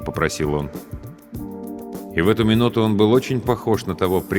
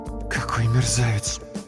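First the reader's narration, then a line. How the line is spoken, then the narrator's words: Muffled voice. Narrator (Russian): глухо сказала Инна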